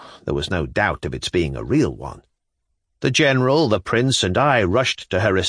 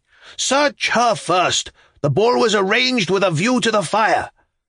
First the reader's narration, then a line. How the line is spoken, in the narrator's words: screamed and fell into a swoon